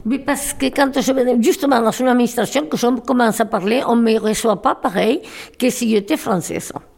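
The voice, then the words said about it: Foreign accent in French. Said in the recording (French): “j'ai toujours un accent que je n'ai jamais perdu”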